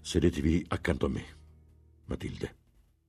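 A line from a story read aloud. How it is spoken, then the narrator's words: Firm but not stern. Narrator (Italian): disse con tono fermo che badò a non improntare di severità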